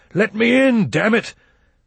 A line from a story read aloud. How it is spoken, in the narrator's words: roared up